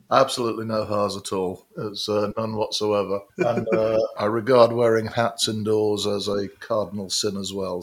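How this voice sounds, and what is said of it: British Midlands accent. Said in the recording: “the big reveal of the British accent ... both firmly in the UK Midlands”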